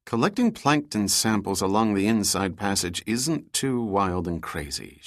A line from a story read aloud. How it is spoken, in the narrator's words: she replied